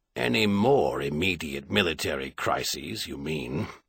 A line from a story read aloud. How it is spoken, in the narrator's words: Clinton muttered, in a voice whose level was carefully calculated to be just audible